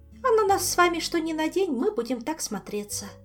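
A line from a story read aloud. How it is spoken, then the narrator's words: Sighing. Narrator (Russian): вздохнула она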